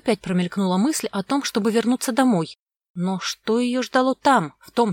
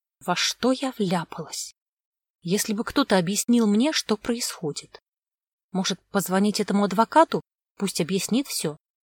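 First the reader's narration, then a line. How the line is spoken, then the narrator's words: Whispered to herself. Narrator (Russian): Вера прошептала про себя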